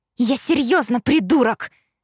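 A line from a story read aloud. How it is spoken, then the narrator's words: Shout after someone. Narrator (Russian): крикнула она вдогонку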